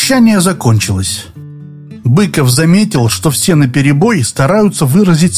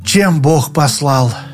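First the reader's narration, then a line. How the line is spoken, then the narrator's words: Sighing. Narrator (Russian): вздохнул Крутиков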